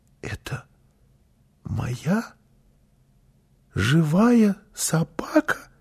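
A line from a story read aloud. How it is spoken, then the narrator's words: Child whispering. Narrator (Russian): прошептал малыш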